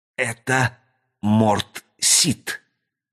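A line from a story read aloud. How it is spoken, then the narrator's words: Whisper. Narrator (Russian): прошептал он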